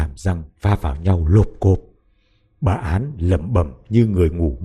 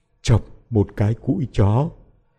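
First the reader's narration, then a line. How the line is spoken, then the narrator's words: Stammering, reciting by rote. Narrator (Vietnamese): Miệng bà lắp bắp nhắc lại như đọc thuộc lòng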